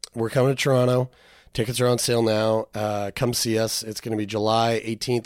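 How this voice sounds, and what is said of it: Worn-out, failing voice. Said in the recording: “My voice is shutting down.”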